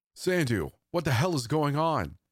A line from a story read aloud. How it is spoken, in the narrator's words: My shouts